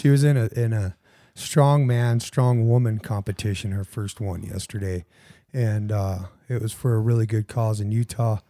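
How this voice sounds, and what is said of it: Hoarse, raspy laryngitis voice. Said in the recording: “Sorry about my voice. ... you sound like, like I don't know, like you gargled with some vinegar right before ... I got a case of the laryngitis. ... Oh, it sounds laryngitis.”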